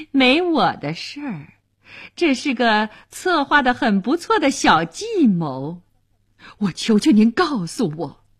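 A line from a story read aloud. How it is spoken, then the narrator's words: Woman laughing. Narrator (Chinese): 乐里夫人笑了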